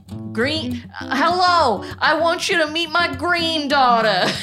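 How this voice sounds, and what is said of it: Exaggerated Boston-Southern mixed accent. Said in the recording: “What is this accent? ... It's like kind of Boston, but more. ... from Boston and the South somehow. ... like the Bayou and like New York at the same time.”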